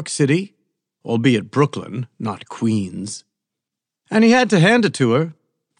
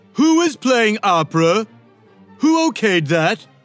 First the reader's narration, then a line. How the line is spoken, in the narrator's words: Trump yelled